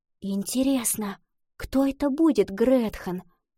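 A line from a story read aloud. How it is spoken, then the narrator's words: Whisper. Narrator (Russian): прошептала Лотти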